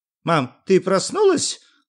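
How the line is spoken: Joyful. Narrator (Russian): радостно сказал Юра

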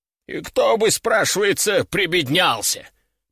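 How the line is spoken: Grumbled. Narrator (Russian): проворчал Вестфаль

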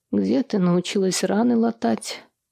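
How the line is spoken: Hoarse voice. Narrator (Russian): хрипловатый тембр

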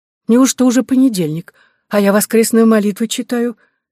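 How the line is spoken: Frightened squeal. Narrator (Russian): испуганно заверещала

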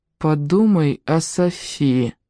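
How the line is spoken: Even level voice. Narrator (Russian): ровным голосом напомнила Виана

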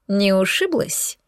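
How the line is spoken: Snide male question. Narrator (Russian): ехидно уточнил мужчина

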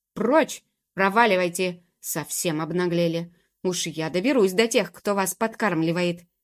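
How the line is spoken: Angry, halting huffing speech. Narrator (Russian): он, сердито и сбивчиво сопя, сказал

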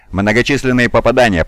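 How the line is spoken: Shouting. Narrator (Russian): прокричал Раун

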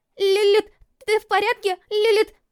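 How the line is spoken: Scream. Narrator (Russian): закричала

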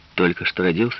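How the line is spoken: Plain. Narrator (Russian): спросил он

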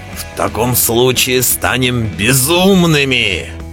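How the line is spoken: Growling. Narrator (Russian): прорычал Белвар

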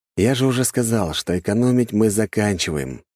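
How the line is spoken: Sighing. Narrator (Russian): вздохнул я

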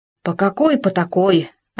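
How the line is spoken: Offended reply. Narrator (Russian): обиженно ответил Хома

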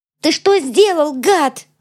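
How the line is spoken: Screaming. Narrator (Russian): Завопила Цветана

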